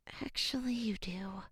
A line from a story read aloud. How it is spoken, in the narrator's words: muttered Serafina